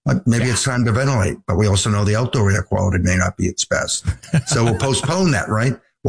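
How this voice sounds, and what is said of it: Stuffy, congested voice. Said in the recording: “You can hear it in my voice. I didn't know pollen on a scale of 1 to 10 be at a level 12”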